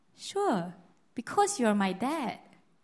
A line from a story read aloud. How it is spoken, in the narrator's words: the son replied him calmly and said